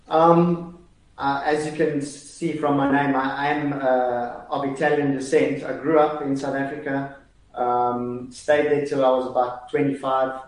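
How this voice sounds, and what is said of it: Strong South African accent. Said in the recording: “has a very South African accent.”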